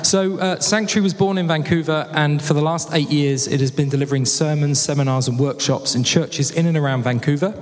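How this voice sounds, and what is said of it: British English accent. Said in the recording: “accent is real. It's not for like your benefit. I'm putting on a British accent. Like, who's that guy with a weird fake British accent? ... No, it's real. I was actually born and bred in Hayward's Heath.”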